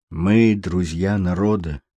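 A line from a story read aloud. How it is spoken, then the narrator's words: Quiet, clear reply. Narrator (Russian): тихо и внятно ответил мэтр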